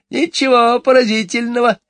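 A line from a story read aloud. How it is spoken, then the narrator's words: Giggling. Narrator (Russian): хихикнула миссис Корри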